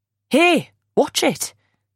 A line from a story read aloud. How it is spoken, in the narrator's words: a man snaps